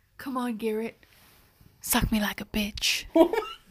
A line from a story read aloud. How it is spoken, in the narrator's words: whispered